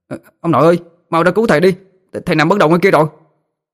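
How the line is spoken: Frantic shout. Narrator (Vietnamese): nó la lên

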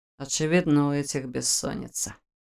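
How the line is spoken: Snort. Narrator (Russian): хмыкнул Войтах

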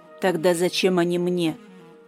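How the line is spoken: Thoughtful, cold. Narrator (Russian): Задумчиво и холодно

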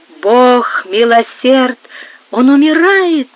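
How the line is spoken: Exclaiming. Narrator (Russian): воскликнула Сара Кондора

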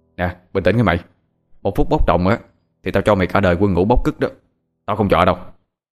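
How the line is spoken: Tense stern warning. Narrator (Vietnamese): Thằng Hoàng cũng sợ thằng Bảo đang nóng sẽ làm chuyện không kiềm chế, ảnh hưởng đến thằng anh em chí cốt của mình, cho nên gằn giọng nói

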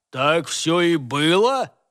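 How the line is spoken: Sudden booming bass. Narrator (Russian): отозвался вдруг гулким басом другой работник

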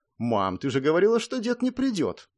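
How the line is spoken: Indignant question. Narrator (Russian): Возмущенно спросила Луиза

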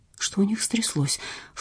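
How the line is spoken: Low-voiced question. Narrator (Russian): вполголоса спросила Люба

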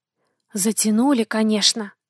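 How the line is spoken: Whisper. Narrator (Russian): шепнул Пьетро

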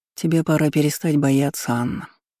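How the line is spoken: Sighing. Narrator (Russian): вздохнул Карпов

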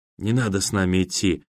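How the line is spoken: Whisper. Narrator (Russian): прошептал Данька

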